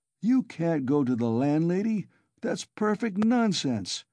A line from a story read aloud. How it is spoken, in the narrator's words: he cried